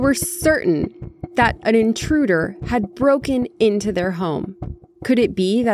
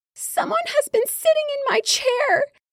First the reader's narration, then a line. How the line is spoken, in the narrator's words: he exclaimed in his itty-bitty voice